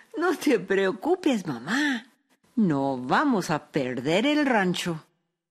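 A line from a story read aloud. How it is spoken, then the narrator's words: Lively young woman, laughing. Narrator (Spanish): su hija Araceli, que era una joven lista y muy viva, se rió y dijo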